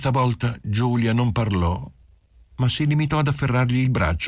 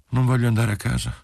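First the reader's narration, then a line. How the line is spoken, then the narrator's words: Sudden sad, languid voice. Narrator (Italian): Giulia disse improvvisamente con voce triste e languente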